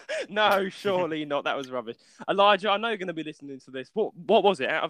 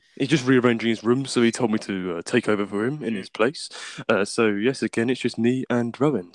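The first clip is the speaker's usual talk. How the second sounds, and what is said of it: Imitates another person's deep voice. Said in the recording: “Most of you love my deep voice ... how good was my Elijah impression?”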